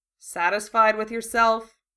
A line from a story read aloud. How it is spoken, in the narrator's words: Harry asked dryly